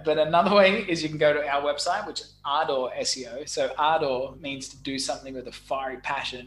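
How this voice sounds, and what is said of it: Noticeable foreign accent. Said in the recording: “my funny accent”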